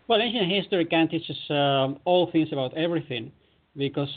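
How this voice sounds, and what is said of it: European accent. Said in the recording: “as you can tell, ... has an accent. He's from Europe”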